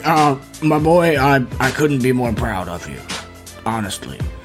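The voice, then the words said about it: Character voice of an aged coach. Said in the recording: “do a Rupert impression”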